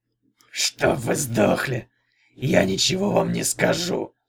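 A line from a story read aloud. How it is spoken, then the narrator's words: Shout. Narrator (Russian): крикнул он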